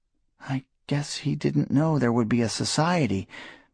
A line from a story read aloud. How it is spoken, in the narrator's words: Mary said sadly